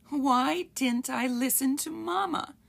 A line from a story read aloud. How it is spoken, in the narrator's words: Stubby cried